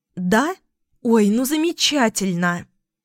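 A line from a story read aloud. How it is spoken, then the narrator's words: Joyful exclamation. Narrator (Russian): радостно воскликнула подруга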